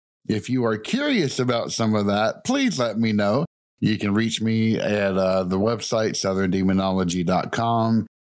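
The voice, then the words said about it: Thick Southern US accent. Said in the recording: “my thick southern accent”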